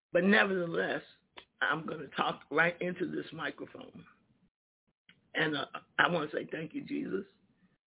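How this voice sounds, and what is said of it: Slightly hoarse voice. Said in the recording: “I am a little hoarse this morning... I'm a little hoarse”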